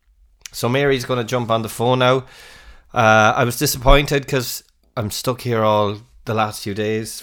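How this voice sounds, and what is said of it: Sick, unhealthy-sounding voice. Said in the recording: “as you can hear from my voice. Do I sound healthy? No. I've got COVID.”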